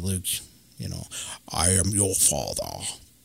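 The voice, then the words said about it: Darth Vader impression. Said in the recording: “talk like Darth Vader ... That was the best impression ever.”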